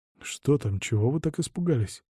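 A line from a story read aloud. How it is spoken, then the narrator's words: Whispered question. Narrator (Russian): шепотом спросил Вильда Бергер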